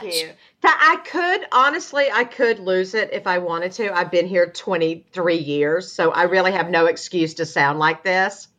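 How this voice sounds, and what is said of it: Southern Georgia accent. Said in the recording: “You're from this mystical place called Georgia. ... your accent is just adorable”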